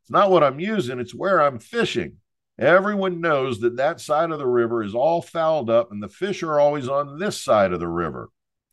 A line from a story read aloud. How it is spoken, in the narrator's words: I holler back